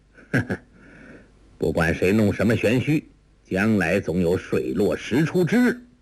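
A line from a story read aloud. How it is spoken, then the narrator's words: Cold sneer. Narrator (Chinese): 王处一冷笑道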